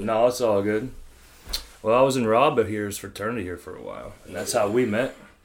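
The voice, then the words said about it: Pittsburgh, Pennsylvania accent. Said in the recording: “my accent ... All the Pittsburgh people out there, Pennsylvania people, yeah. Can you hear the accent?”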